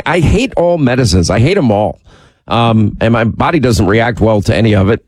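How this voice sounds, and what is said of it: Congested, nasal voice. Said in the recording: “We hear it through your nose ... You sound like the guest of honor at a mucus convention”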